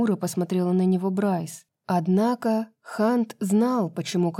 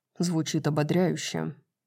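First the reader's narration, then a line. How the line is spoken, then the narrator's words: Muttered. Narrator (Russian): пробормотал Хант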